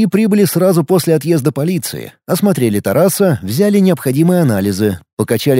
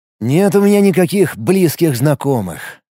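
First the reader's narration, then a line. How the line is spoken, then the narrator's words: Sighing again. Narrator (Russian): снова вздохнул он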